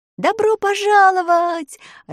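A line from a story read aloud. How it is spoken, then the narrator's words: Joyful shouting. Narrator (Russian): радостно крикнули путники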